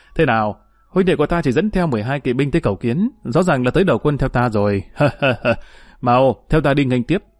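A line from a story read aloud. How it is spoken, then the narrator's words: Hearty laughter. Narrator (Vietnamese): Trương Mậu ... bật cười ha ha nói với mọi người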